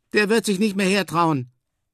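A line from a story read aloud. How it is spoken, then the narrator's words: Shouted. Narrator (German): rief Emil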